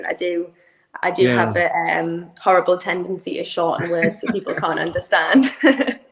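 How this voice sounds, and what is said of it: Irish accent. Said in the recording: “that one slipped by me there, the accent ... with my accent, it is the pronunciation can be a little bit different”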